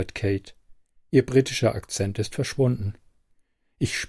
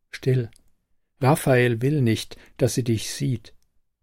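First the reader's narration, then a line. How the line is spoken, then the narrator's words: Calm familiar voice near ear. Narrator (German): eine vertraute Stimme neben meinem Ohr ruhig sagt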